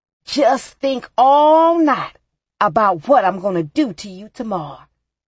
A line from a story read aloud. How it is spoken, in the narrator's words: he shouted after me